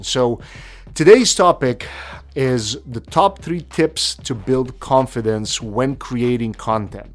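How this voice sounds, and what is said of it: Non-native English accent. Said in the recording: “English was my second language ... judged for my accent”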